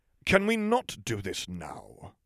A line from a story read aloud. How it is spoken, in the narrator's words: Snape said through gritted teeth